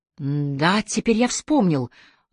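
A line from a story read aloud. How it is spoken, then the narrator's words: Excited rapid chatter. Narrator (Russian): взволнованно затараторил Ормерин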